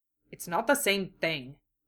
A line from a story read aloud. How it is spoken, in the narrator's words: he muttered